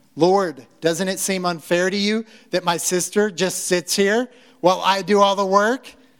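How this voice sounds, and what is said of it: Voices a complaining biblical character. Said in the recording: “Was that a good impression of picking up the tone, probably, of what she's saying?”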